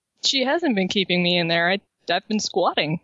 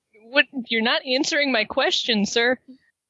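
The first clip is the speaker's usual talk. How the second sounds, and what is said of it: Raised, louder voice. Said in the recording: “I don't mean to raise my voice”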